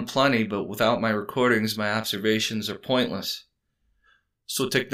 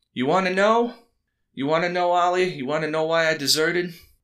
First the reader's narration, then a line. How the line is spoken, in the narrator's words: Miller yelled over the roaring engine